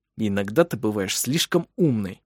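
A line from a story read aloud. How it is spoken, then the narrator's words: Hiss. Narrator (Russian): прошипел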